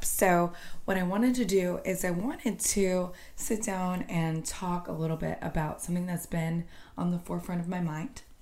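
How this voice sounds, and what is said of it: Slightly hoarse voice. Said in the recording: “I'm a little bit hoarse from the holiday weekend”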